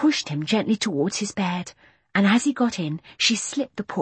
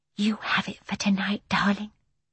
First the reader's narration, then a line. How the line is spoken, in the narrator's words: whispered Jane